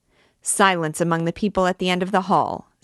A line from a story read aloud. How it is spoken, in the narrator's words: said the usher sharply